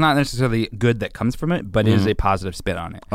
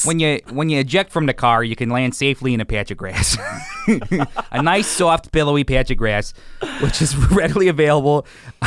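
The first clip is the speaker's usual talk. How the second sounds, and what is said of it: Impression of a high school coach. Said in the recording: “that is like an eerily good impression of my high school wrestling coach”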